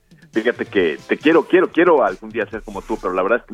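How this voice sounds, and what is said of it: Deep husky radio-announcer voice. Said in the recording (Spanish): “hoy traigo voz de hombre ... me dio una gripa ... Pero me dejó la voz así como de, ya sabes, como de, como de locutor del Heraldo Radio ... traes una voz acá de...”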